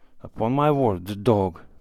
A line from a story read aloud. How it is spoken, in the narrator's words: muttered Savka, with respect